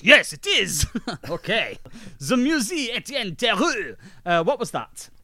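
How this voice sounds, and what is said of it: Put-on French accent. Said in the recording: “Let's get some French accents going so we know how they sound. Is this a French accent?”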